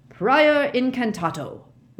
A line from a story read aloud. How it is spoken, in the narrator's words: roared Mr